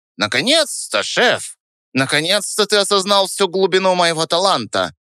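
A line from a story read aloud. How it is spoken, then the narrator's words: Squeaky, self-important. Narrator (Russian): Пискнул он с важностью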